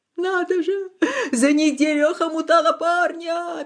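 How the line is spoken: Sobbing again. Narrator (Russian): опять зарыдала Татьяна

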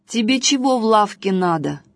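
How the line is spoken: Rude, angry shopkeeper. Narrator (Russian): грубо спросил лавочник, рассерженный тем, что Василек хочет ему бороду отрезать

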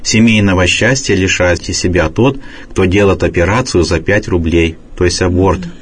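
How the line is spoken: Calm reply, priest. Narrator (Russian): Отец Нафанаил спокойно ответил

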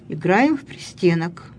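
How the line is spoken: Calm reply. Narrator (Russian): спокойно ответила Лидия Михайловна

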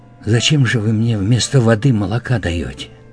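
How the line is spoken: Quiet whisper. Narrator (Russian): она тихо прошептала

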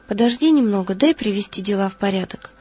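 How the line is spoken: Calm. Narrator (Russian): Лаврентий спокойно отвечал

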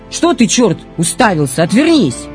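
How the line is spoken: Sharp shout. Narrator (Russian): она бы прикрикнула просто

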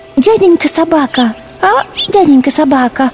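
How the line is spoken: Timid voice. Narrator (Russian): робко начала она

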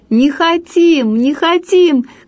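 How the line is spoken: Crowd shouting. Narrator (Russian): кричали все

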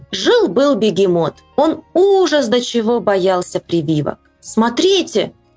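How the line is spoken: Shouting doctor. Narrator (Russian): закричал доктор

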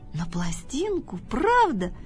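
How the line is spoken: Surprised squeal. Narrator (Russian): взвизгнул от удивления Тявка

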